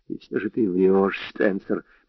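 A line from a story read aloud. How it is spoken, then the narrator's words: Whispered. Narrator (Russian): прошептал он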